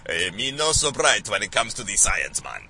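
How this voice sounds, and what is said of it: Put-on unidentified foreign accent. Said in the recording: “I don't think that was Jamaican ... I have no idea what accent that was.”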